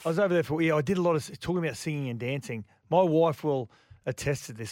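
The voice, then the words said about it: Rough, hoarse voice. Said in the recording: “your voice is a bit rough”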